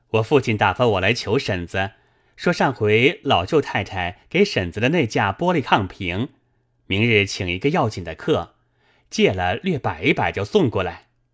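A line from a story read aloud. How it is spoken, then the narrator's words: Laughing. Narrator (Chinese): 贾蓉笑道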